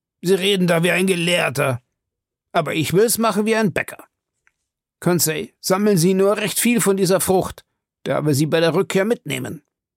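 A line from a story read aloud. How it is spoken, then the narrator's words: Called out. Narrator (German): rief Ned Land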